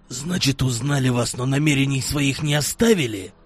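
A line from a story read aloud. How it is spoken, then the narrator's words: Hoarse. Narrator (Russian): хрипло сказал Славик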